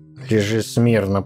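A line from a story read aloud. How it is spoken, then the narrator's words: Grumbling girl. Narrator (Russian): проворчала маленькая разбойница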